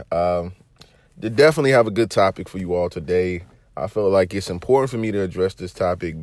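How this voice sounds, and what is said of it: Sick, strained voice. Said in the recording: “apologize for my voice today, people. I am under the weather”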